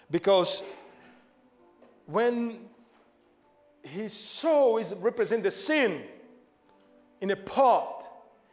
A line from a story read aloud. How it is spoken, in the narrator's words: he cried out and said